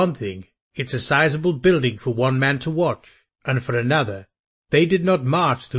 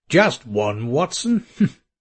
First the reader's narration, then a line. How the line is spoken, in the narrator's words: Holmes asked, chuckling